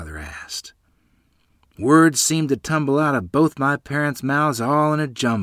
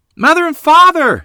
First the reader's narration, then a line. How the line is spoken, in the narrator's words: Lottie shouted in excitement